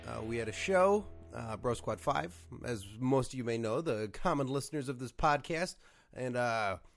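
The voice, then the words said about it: Hoarse, worn-out voice. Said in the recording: “my voice is a little shot... Blew his voice... I blew my voice... Blew his voice out... loud talking”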